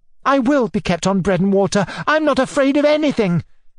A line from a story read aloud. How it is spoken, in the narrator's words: cried Sashenka, moved to frenzy in her turn